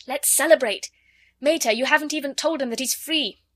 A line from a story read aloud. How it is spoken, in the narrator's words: Ring cried